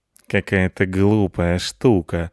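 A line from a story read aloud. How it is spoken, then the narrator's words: Lazy. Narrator (Russian): сказал Рыжопиус лениво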